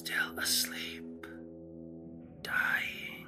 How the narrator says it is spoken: he said very faintly, almost inaudibly

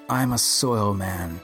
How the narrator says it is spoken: he said

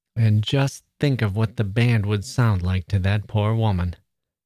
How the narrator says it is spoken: said Laura

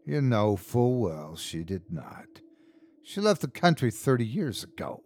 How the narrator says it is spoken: snapped Agnes

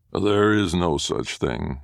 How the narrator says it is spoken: it replied

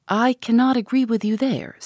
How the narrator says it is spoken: said Eleanor

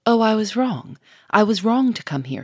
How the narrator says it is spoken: she cried quickly, in changed, dolorous tones

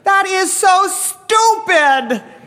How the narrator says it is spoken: the woman yells

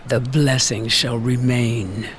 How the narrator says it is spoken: the sunken mother angrily hiss

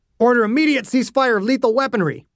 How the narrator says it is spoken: Ogden barked

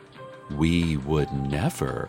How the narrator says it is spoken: she whispered from behind me

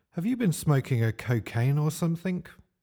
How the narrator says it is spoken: blurted Johnny, dribbling saurine from his mouth

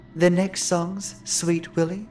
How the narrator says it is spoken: Lucy said softly

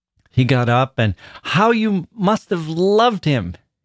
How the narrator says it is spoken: he cried

